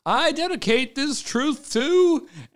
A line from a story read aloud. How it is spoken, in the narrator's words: with the silence, he shouts